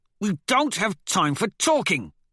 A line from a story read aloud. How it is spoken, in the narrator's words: Severo barks